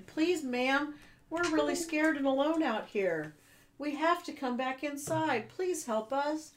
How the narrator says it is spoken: the little girl pleaded

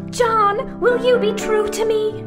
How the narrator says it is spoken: She asked in quavering tones

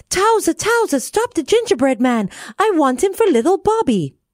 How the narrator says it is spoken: the cook called out

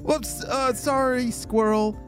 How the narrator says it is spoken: laughed Stella

